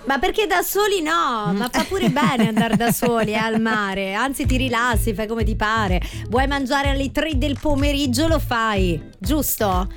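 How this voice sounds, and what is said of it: Speaks with a put-on accent. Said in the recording (Italian): “Com'è che ti è uscito questo accento?”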